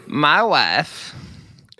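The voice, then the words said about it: Imitates another person's voice. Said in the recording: “do a Borat impression”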